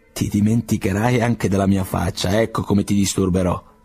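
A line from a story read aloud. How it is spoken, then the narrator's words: Plain. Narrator (Italian): rispose Vasily Ivanovich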